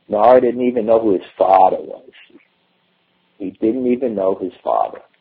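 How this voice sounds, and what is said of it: Put-on Brooklyn accent. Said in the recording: “I can only say this in a Brooklyn accent”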